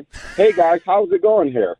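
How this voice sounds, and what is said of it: Exaggerated white-guy impression voice. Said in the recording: “Is that your white person impression with just like a little bit of tongue involved? ... I can put it on from time to time.”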